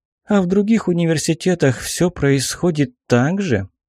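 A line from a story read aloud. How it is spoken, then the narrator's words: Tired question. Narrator (Russian): устало спросила Аллегра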